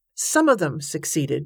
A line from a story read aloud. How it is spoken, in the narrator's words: Joshua said